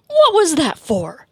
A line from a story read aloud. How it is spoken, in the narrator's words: Jason barked